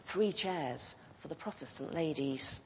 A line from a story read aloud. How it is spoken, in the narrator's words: whispered in the ear